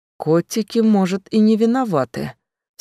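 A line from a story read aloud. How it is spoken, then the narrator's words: Flat, emotionless calm. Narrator (Russian): все так же безэмоционально спокойно продолжил Имичи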